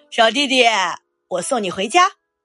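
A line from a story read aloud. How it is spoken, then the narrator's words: Loud. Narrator (Chinese): 大白熊大声说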